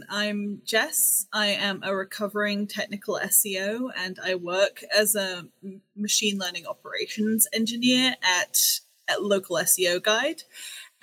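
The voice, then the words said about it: English accent. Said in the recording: “I have an English accent because I grew up in England.”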